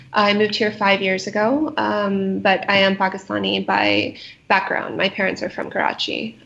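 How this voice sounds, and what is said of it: American accent. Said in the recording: “I am an American living in Pakistan, as most people pick up from my accent.”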